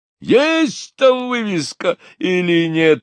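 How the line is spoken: Shouting. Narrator (Russian): орал Булросс

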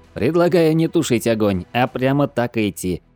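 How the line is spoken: Cheerful suggestion. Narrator (Russian): весело предложил Хило

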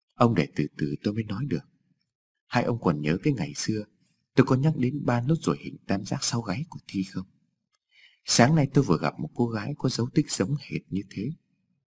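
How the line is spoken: Smiling. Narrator (Vietnamese): Tôi mỉm cười

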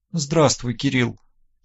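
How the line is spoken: Quiet speech. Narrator (Russian): тихо проговорила Мария

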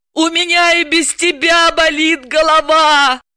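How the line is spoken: Howling. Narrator (Russian): взвыла Далила

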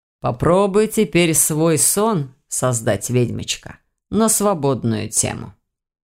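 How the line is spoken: Calm. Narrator (Russian): спокойно сказал

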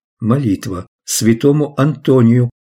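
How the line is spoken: Calm reply. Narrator (Russian): спокойно ответила Денис

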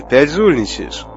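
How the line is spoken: Stern question. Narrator (Russian): строго спросил пилот

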